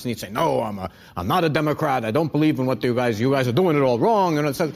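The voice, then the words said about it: Imitates another person's voice. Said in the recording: “my Larry David impression”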